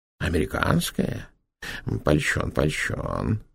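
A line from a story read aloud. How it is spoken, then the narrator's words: Muttered. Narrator (Russian): пробормотал Петр Иванович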